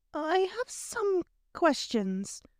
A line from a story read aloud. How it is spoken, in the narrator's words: Hermione said hesitantly